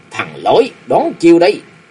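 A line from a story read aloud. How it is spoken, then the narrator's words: Shout. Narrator (Vietnamese): Hắn quát lên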